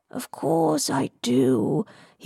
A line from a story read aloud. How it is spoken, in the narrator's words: he purred